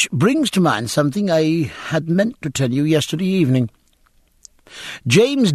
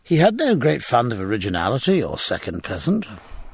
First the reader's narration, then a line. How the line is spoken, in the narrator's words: said Jack, adding in a pensive, wondering tone